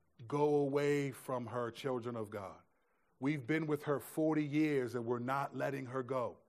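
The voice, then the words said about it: Demonic voice. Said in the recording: “in this demonic voice ... it's clearly a demonic voice”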